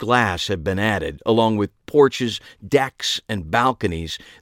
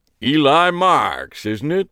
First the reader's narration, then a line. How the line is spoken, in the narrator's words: a deep, booming voice said